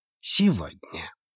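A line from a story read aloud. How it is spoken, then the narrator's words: Barely audible addition. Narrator (Russian): он еле слышно добавил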